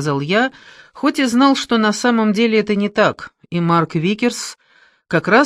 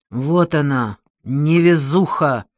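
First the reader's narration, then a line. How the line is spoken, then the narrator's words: Angry mutter. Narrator (Russian): злобно пробормотал он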